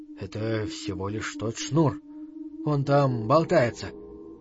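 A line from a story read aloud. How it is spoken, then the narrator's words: Confused incoherent whisper. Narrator (Russian): зашептал Мортимер, окончательно утратив способность соображать и связно излагать мысли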